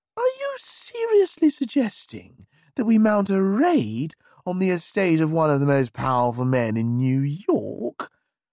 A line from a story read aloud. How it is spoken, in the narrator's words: The squeak had distressingly returned to my voice